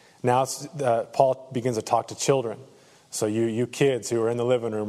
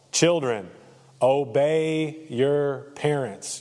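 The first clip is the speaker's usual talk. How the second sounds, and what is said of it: Louder, emphatic speech. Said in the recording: “I'm going to say it louder.”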